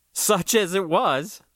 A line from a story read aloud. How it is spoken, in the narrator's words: laughed